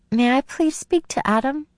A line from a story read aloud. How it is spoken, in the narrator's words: My voice came out in a squeak as I asked